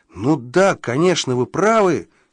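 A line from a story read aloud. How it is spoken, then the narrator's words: Exclaimed in sudden realization. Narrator (Russian): воскликнул я, сообразив, о чем он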